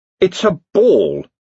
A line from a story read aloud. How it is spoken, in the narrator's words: he snarled